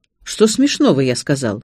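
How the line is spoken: Angry question. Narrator (Russian): сердито поинтересовался

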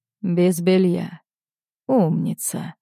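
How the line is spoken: Hoarse whisper in ear. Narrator (Russian): Хрипло шепчу ей на ухо

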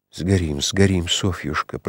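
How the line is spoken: Horrified whisper. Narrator (Russian): прошептал он с ужасом

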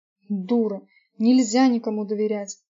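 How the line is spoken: Distant growl from upstairs. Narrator (Russian): прорычал Габриэль со второго этажа

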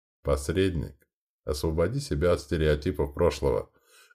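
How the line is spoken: Gentle reminder. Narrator (Russian): мягко напомнил Солос

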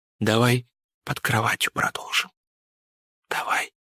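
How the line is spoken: Whispered into ear. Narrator (Russian): предложил, прошептав на ушко

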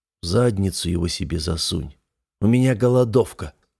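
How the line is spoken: Habitual grumble. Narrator (Russian): буркнул я привычно

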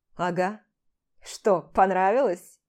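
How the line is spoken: Smirking grunt. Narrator (Russian): хмыкнул дядь Толя

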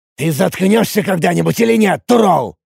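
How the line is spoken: Angry snap. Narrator (Russian): зло бросил я

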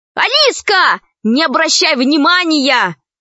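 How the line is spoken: Shouted after. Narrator (Russian): крикнул вслед Пашка

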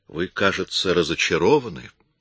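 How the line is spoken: Calm. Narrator (Russian): спокойно сказал Коридон

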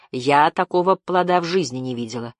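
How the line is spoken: Plain. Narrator (Russian): ответила Жасмин

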